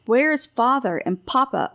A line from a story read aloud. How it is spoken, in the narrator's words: Ulrich shouted